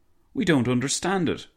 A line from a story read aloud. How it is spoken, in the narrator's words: Fidel exclaimed, in a very strong Sicilian accent